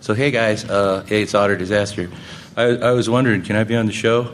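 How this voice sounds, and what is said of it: Imitation of a listener's voice. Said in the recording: “I'm going to do it in my Bruce voice.”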